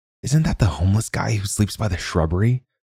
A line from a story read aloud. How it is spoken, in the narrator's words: asked in a whisper